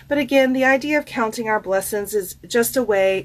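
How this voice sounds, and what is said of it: Country accent slipping out. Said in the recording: “the country accent really came out there, y'all. Did you hear it? Country blessings.”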